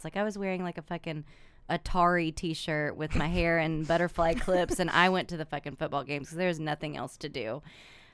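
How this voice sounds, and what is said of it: Regional accent. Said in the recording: “I'm also very, very picky about accents. I have one. Perhaps you can hear it, the trained ear.”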